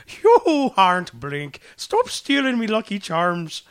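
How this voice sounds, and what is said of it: Attempted Irish accent. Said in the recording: “One of us needs to do an Irish accent ... I cannot do an Irish accent.”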